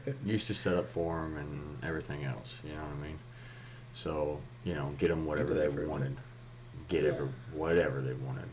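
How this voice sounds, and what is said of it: Texas accent. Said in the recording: “Texas country concerts because of where I'm from ... if you can't tell from his accent”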